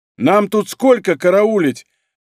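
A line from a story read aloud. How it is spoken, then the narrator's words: Shouted over wind. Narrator (Russian): прокричал сквозь усиливающийся ветер человек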